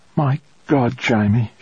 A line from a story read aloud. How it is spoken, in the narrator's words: she said, her voice trembling